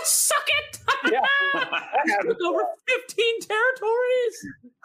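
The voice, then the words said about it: Impression of a friend gloating. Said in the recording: “my impression, if you will, of Hondo playing risk”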